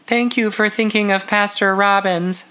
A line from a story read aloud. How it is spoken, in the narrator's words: she said in a wavery voice